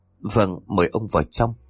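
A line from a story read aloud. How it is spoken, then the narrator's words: Startled stammering woman. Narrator (Vietnamese): bà Miriam bỗng giật mình, bà nói giọng lắp bắp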